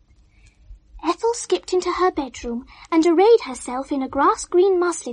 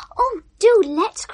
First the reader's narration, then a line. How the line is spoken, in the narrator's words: cried Ethel, who was game for any new adventure